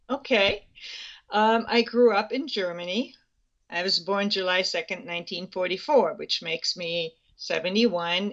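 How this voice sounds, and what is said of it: Slight foreign accent. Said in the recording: “We can all hear a little bit of an accent”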